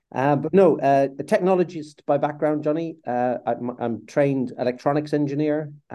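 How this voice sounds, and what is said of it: Irish accent. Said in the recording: “The accent that you, your listeners will hear is Irish. I I was born and grew up in Southern Ireland, County Cork.”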